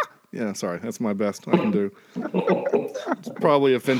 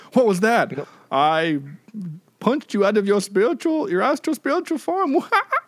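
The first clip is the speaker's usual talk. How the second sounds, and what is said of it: Put-on accent. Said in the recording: “That was a great accent there”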